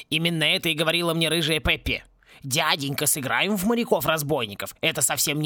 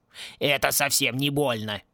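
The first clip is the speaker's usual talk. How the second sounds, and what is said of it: Mocking imitation of another's voice. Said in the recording (Russian): “передразнил ее Клинч”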